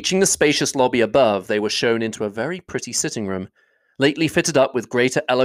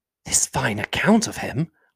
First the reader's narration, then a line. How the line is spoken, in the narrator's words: whispered her aunt